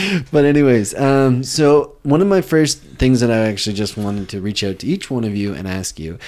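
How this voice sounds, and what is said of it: Usual voice. Nothing is said of it.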